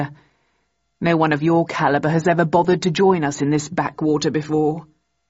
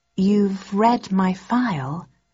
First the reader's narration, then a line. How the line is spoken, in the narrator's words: I asked slowly